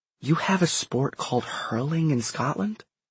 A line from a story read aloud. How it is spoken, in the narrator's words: Simon whispered back